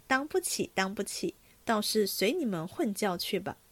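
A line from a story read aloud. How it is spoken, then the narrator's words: Laughing. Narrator (Chinese): 宝玉笑道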